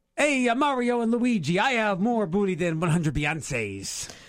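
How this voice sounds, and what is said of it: Bad put-on Italian accent. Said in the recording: “speak like an Italian ... That was like a bad Irish accent.”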